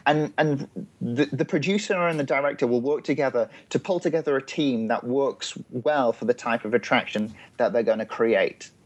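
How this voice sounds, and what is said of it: English accent. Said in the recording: “how wonderful your accent is ... I'll keep with the English accent”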